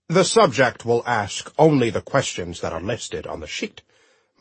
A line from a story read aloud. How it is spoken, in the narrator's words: my dad said coldly